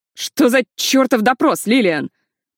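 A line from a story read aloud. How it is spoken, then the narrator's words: Shouting. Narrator (Russian): закричал Фил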